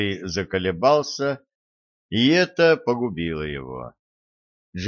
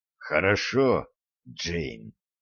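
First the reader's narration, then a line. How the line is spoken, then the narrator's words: Hoarse. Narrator (Russian): хрипло проговорил Гарри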